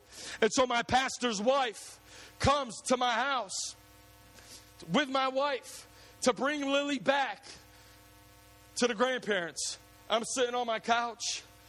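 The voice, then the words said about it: Emotional, close to tears. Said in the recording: “I get emotional. Sorry, I'm usually not a cry, but I get emotional”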